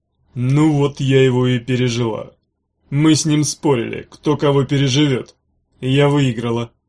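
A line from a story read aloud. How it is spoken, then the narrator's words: Hollow, muffled voice. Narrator (Russian): глухо сказала она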